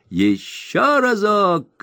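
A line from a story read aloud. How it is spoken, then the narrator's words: Small ringleader shouting. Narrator (Russian): крикнул маленький заправила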